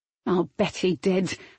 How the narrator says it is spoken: said through gritted teeth

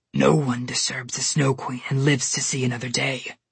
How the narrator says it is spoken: the polar bear growled

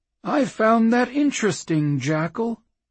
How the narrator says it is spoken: the claymaster said, his tone dangerously light

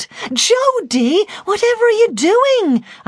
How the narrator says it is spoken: I shouted

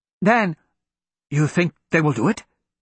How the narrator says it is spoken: He asked eagerly

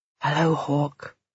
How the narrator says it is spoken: I whisper

